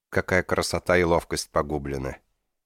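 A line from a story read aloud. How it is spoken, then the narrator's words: Sad. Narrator (Russian): Печально проговорил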